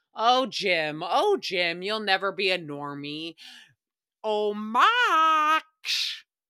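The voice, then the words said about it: Grinch character voice. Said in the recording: “That's my Grinch impression.”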